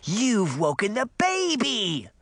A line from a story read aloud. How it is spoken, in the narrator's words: the little girl wailed